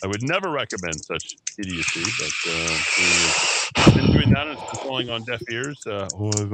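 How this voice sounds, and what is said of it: Usual voice. Nothing is said of it.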